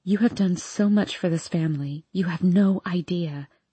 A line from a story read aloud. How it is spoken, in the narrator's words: she whispers in my ear, tears shining in her eyes